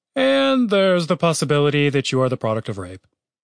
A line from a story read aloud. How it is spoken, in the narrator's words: Chaz paused and then added solemnly